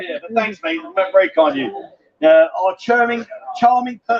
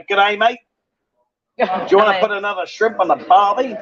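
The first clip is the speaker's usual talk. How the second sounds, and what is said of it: Put-on Australian accent. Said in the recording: “They speak nice from Australia... check my accents out”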